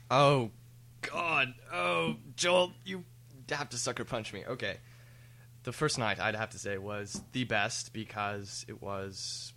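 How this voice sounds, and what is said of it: British accent. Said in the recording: “sounds British now ... It's the drinking, folks. My accent changes the more I drink.”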